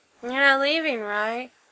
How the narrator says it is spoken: Frank asks with a yawn

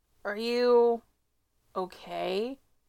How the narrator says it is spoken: He asks slowly

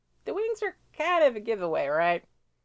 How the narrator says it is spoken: She laughs

